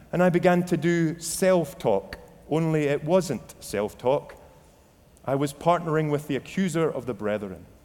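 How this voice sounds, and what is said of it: Scottish accent. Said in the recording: “in a Scottish accent, not too dissimilar to my voice”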